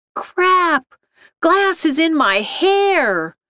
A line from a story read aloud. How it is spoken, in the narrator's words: Shonda screamed